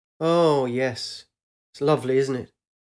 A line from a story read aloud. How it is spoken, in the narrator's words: half smiled and sighed